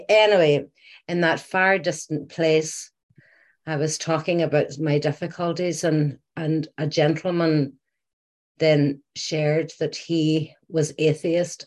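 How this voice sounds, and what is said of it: Irish accent. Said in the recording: “you'll probably have picked up from the accent, I'm Irish”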